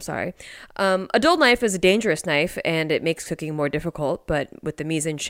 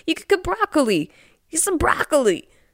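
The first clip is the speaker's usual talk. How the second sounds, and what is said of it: Christopher Walken impression. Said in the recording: “my Christopher Walken impression”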